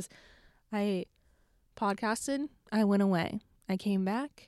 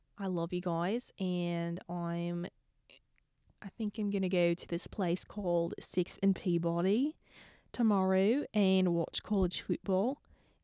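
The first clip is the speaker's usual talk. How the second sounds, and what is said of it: Put-on Australian accent. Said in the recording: “let's do the outro in an Australian accent.”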